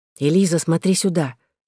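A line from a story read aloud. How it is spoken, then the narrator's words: Whispering. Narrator (Russian): шептала мне Клер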